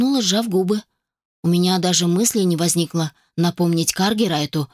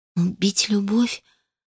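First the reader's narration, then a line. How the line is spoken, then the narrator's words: Barely audible. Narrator (Russian): едва слышно повторила я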